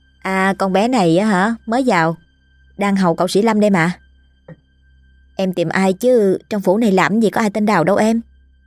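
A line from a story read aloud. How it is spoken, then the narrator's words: Warm, smiling woman. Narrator (Vietnamese): cô ta mỉm cười niềm nở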